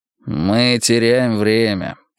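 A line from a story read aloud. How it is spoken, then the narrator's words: Grumbling mutter. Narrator (Russian): пробурчал Варгас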